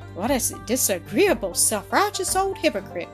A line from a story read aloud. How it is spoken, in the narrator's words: cried Mildred, her cheeks flushed, her eyes flashing